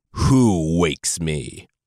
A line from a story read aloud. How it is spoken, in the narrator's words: It bellowed a demonic, otherworldly